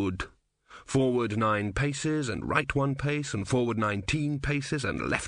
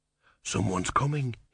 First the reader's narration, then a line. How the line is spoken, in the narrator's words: whispered